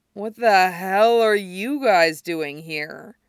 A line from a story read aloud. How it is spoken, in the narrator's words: Justin asks, sounding baffled, his voice only a little bit slurred